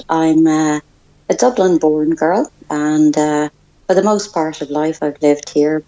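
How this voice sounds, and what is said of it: Irish accent. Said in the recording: “you can probably tell by the accent, I'm Irish”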